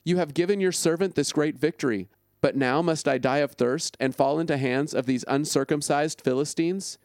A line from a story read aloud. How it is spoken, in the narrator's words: He was very thirsty, so he cried out to the Lord and said